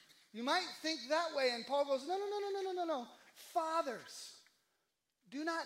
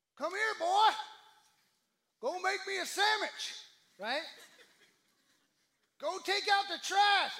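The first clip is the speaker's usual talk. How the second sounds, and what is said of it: Put-on dad voice. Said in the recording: “I don't know why my dad voice is that way, but it just is.”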